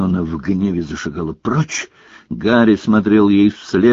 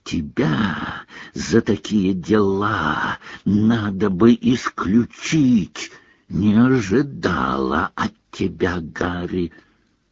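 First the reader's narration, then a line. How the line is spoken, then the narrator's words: Hissing in ear. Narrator (Russian): Наклонившись к уху Гарри, она зашипела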